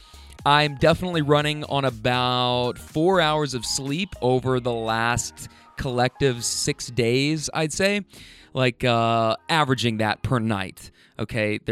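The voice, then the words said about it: Tired, worn-out voice. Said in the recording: “I'm pretty exhausted, so you might be able to hear it in my voice.”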